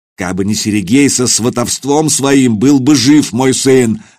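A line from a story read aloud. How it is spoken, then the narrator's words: Angry bark. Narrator (Russian): рявкнул он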